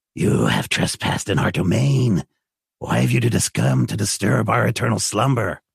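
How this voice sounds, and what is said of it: Raspy monster voice. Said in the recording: “you can hear them breathing with a raspy breath”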